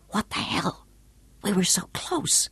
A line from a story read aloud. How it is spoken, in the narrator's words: demanded in a furious whisper